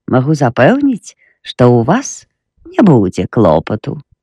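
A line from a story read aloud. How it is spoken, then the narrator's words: Cheerful, smiling. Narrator (Belarusian): Яна усміхнулася і бадзёра дадала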